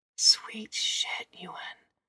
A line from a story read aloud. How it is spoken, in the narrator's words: whispered